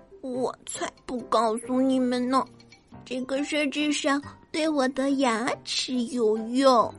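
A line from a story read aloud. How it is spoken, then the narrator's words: Muttering. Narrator (Chinese): 最后一个河狸还在嘀嘀咕咕的说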